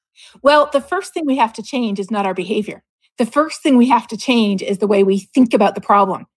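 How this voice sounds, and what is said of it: Canadian accent. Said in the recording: “your Canadian accent is charming ... I know you're trying to hide it, but you can't. It's there for all of us to hear.”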